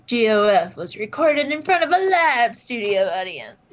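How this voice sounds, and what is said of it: Announcer-style narrator voice. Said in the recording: “narrator voice”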